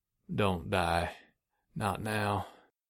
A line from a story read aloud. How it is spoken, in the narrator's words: mumbling